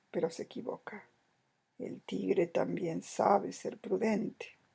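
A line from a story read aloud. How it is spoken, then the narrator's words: Murmur. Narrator (Spanish): murmuró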